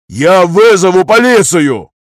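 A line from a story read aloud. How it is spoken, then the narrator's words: Unrestrained yelling. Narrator (Russian): орал уже не сдерживаясь Дирле Вангер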